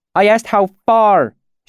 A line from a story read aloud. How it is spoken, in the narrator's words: snapped